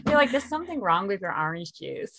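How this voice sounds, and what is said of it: Attempted American accent. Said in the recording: “I can't do the accent. ... I'm with actual Americans.”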